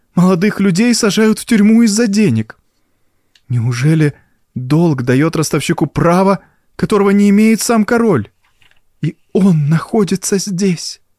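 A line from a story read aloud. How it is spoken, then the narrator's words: Exclamation. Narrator (Russian): воскликнула она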